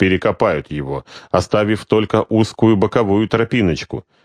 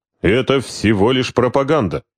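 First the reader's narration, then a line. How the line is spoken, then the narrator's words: Grumbling. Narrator (Russian): проворчал капитан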